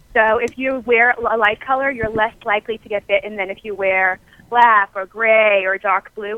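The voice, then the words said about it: New York accent. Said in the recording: “I was trying to get you to say New Yorker again. The accent came through. ... I was trying to catch you with the accent.”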